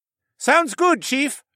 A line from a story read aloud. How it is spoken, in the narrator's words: the falcon man hollered back